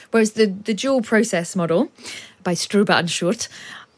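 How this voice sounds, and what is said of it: Names pronounced in German accent. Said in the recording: “I'm just using a German accent.”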